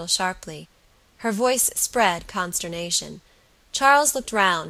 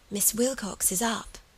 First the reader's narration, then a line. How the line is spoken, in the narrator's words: the child whispered